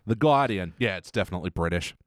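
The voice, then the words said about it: Boston accent. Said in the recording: “I like how you're saying it in a Boston accent.”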